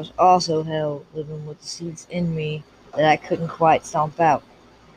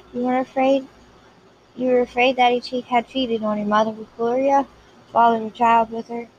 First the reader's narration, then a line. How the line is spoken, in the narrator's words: said